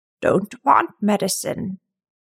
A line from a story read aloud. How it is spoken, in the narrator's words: croaked